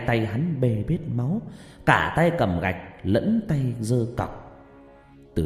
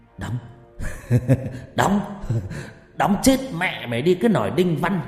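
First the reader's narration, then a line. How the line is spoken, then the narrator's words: Shrill laughing mutter. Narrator (Vietnamese): hắn vừa cười the thé và lẩm bẩm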